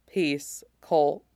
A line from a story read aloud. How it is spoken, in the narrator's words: says softly